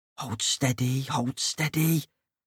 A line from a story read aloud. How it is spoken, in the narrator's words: whispered Mrs